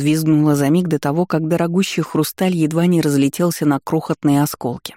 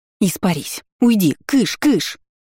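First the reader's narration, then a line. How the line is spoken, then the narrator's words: Hissing. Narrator (Russian): Продолжила шипеть на воду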